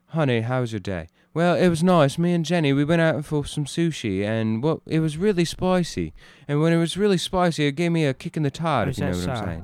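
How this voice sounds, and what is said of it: Put-on British accent. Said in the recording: “give me a British accent any day”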